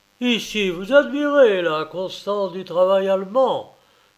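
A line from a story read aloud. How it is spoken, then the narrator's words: Doctor exclaiming. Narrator (French): s'écria le docteur Meyer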